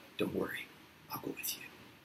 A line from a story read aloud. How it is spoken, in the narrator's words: with a quiet chuckle, he whispers